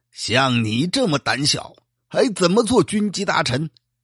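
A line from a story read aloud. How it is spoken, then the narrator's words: Furious emperor. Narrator (Chinese): 乾隆帝大怒，说道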